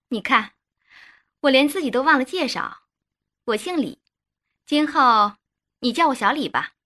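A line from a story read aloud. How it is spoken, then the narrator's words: Sweetly smiling. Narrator (Chinese): 女邻居冲洪涛嫣然一笑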